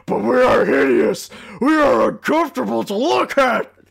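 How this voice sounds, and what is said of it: Cartoon character voice impression. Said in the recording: “my Augie Doggie impression”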